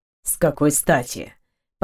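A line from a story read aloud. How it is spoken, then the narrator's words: Near growl. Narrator (Russian): Почти прорычал он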